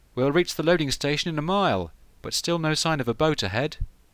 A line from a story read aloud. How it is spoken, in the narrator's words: One of the crew called out